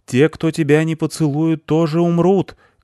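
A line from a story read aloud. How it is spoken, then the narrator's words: Shouting after someone. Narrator (Russian): кричал он ей вслед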